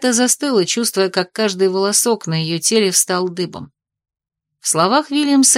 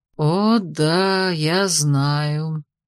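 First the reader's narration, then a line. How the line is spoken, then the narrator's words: Drawling. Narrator (Russian): протянул Вильямс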